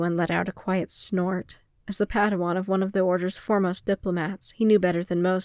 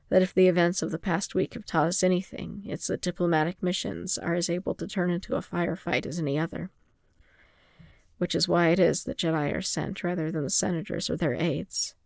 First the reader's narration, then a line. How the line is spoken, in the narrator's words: Fimor said in a mild tone